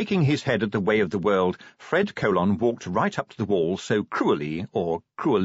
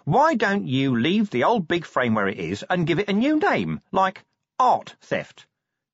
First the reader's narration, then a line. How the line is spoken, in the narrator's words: said Nobby cheerfully